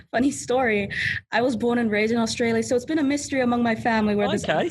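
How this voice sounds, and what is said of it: Slightly American-sounding accent. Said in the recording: “you've got an accent? ... It's almost a little bit American. It just sounds a little bit American. ... People say it's American. People say it's Spanish.”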